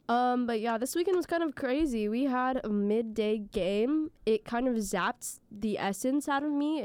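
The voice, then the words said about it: Scratchy voice. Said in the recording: “my voice sounds better than this most times... right now my voice is a bit scratchy. I'm recovering from an illness”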